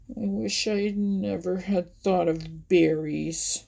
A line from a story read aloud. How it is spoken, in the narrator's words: growled Buster to himself